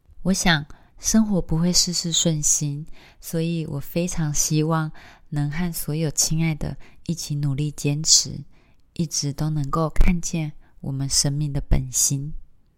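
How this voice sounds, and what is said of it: Quiet, tired, lowered voice. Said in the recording (Chinese): “我觉得我的音量好像都蛮小声的……因为我现在是一个很疲累的状态，所以讲话如果有点卡卡的或不太顺……我也不敢讲话太大声，所以我觉得我声音好像有点比较压低了”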